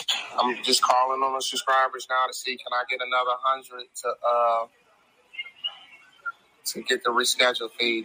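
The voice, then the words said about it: Hoarse, strained, worn-out voice. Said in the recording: “I done lost my voice yelling up there and yelling at customer service”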